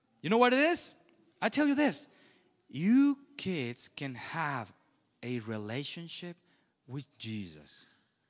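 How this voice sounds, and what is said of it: Speaks English with an accent. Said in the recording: “You can talk to an accent like me”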